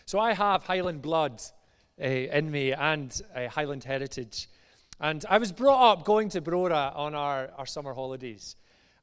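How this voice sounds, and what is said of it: Mild Glasgow Scottish accent. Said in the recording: “as you maybe tell from my accent, I'm from just outside Glasgow. It's kind of went dulled down a wee bit”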